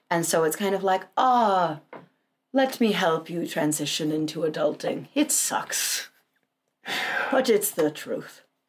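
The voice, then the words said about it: Old wizard voice, vaguely Irish. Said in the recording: “old wise Irish? ... it old sounded kind of Irish. ... It's more wizard ... my old wizard accent”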